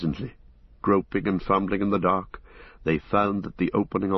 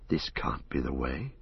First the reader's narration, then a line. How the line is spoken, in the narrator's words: Frodo whispered